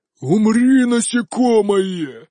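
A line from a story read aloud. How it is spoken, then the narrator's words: Roaring elemental. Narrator (Russian): взревел мой элементаль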